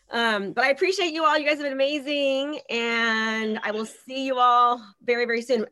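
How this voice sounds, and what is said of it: Strained, hoarse voice. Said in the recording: “losing my voice literally”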